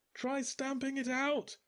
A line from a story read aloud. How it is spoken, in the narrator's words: yelled Merrill over the hullabaloo outside